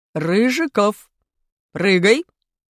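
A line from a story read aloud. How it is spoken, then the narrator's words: Teacher's stern command. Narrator (Russian): скомандовал строгим голосом наш учитель физкультуры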